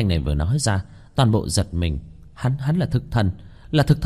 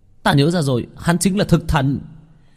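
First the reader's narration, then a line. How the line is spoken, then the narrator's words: Exclaiming in realization. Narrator (Vietnamese): Một tên chỉ huy căn cứ vũ khí hạt nhân cùng với một nhân sĩ đuổi quỷ Hàn Quốc giống như nghĩ đến cái gì kêu lên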